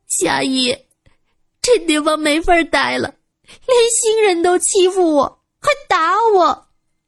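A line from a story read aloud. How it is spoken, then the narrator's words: Pouting, crying. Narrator (Chinese): 陈潇潇一撇嘴，哭道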